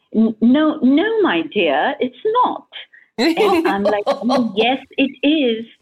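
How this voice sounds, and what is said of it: Put-on English accent. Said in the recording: “she had a very, you know, very English accent, which I'm going to try, of course, as an Indian. So that's going to be funny.”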